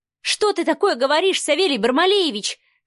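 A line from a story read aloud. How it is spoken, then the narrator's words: Angry woman shouting. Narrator (Russian): кричала Марианна, гневно сверкая глазами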